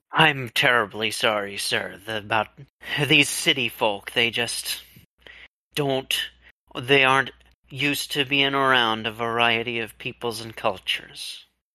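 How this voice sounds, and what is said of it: Put-on accent, inconsistent. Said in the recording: “I'm sure my accent keeps changing”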